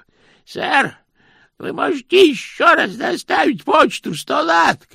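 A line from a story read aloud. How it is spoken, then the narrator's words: Shouted. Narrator (Russian): крикнул он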